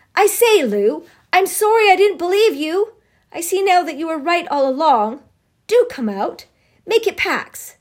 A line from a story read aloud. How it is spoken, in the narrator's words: he shouted again